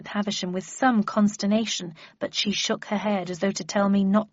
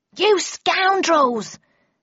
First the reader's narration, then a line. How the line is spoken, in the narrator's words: shouted a second voice, still from behind the door